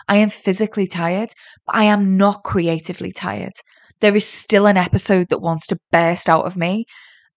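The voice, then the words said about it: Tired-sounding voice. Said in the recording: “I am physically tired. I can feel it. You can probably hear it in my voice.”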